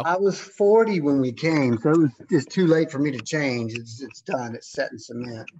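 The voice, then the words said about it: Strong American accent. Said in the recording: “you've still got your very, very much American accent going on”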